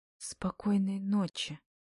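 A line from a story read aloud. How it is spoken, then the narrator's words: Timid. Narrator (Russian): робко говорит Агата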